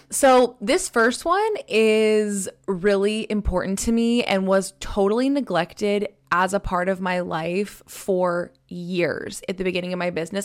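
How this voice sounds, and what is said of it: Slightly hoarse, rough voice. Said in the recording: “my voice sounds a little bit like hoarse or just weird ... I sound a little rough”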